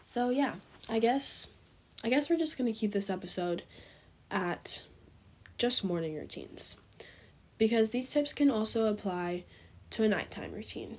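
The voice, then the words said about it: Weak, fading voice. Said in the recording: “my voice is fading fast ... my cold”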